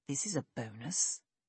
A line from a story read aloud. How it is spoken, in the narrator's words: he whispered